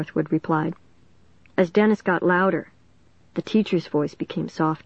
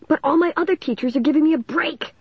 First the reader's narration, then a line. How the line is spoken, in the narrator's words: Dennis exclaimed